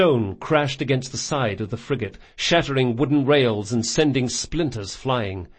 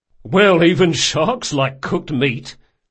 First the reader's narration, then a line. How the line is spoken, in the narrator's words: said the sergeant with a chuckle